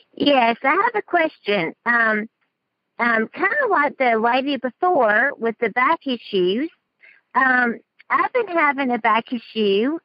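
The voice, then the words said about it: Southern American accent. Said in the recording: “You got a southern accent going.”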